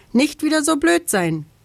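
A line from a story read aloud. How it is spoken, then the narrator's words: Calling down from above. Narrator (German): ruft vom Baum herab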